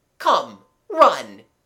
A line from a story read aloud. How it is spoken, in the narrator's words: he cried